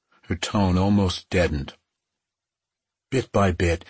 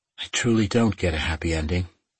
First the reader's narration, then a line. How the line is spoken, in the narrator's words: she said in that horrid, deadened tone